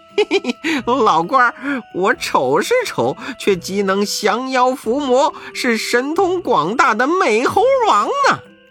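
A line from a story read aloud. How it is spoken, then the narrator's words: Hurried ingratiating laugh. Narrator (Chinese): 悟空忙陪笑道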